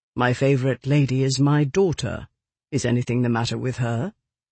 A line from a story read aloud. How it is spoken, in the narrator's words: He kept his voice cool